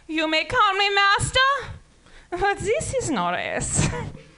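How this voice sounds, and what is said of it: Bad put-on German accent. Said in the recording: “I really need to put my German accent, obviously. I have a terrible”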